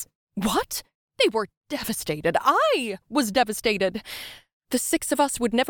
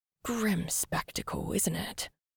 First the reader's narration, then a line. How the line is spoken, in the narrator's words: The sound of her voice sent chills through Sam's body